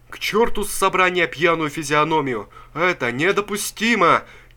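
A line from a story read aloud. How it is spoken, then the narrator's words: Crowd shouting. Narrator (Russian): кричала рабочая масса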